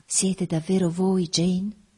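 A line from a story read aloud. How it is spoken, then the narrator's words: Sweet-voiced question. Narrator (Italian): domandò con la sua voce dolce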